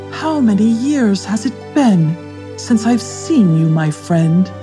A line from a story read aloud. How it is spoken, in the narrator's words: She sighed